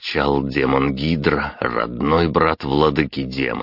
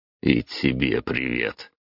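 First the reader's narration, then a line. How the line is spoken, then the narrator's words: Grumbling. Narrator (Russian): проворчал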